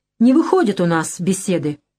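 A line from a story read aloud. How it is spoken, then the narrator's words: Sharp statement. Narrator (Russian): резко сказал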